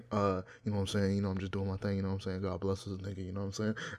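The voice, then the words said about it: NBA player postgame interview voice. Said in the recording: “let me try again ... You sound like an NBA player after a fucking game and they're interviewing him.”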